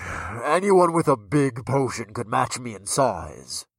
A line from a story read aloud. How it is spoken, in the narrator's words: the giant man grumbled